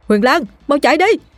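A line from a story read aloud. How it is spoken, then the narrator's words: Young man shouting loudly. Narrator (Vietnamese): chàng trai hét lớn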